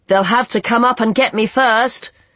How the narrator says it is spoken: shouted Arlo

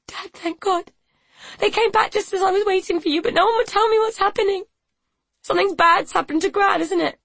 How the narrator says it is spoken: sobbed

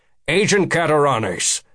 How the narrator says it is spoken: Becker said sharply

